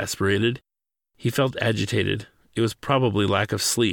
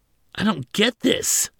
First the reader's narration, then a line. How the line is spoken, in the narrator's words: exclaimed